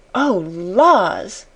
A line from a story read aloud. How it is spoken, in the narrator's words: she gasped